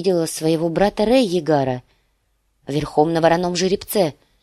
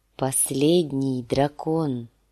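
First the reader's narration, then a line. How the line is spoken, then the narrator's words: Weak whisper. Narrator (Russian): слабым голосом шепнул сир Джорах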